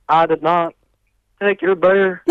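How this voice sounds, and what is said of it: Bill Clinton impression. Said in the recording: “your Bill Clinton is pretty good as well.”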